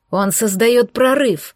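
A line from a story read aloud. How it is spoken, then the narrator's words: Warning growl. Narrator (Russian): прорычал, предупреждая об опасности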